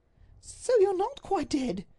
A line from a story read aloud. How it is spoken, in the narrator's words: she cried